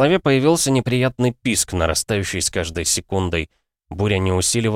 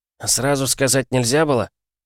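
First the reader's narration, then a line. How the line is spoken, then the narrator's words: Mutter. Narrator (Russian): пробурчал тот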